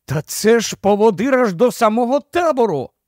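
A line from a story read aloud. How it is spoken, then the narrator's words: Exclaimed with delight. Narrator (Ukrainian): Із захопленням вигукнув він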